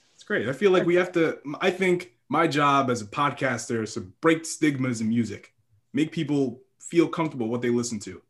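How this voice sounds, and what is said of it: Direct, good podcast voice. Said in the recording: “You have a good podcast voice. It's very direct.”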